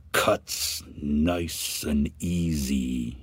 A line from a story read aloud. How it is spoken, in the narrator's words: he said slowly